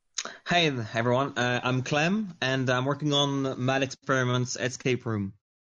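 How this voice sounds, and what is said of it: French accent in English. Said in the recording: “based on your accent, I'm going to say you're not from America ... I'm French”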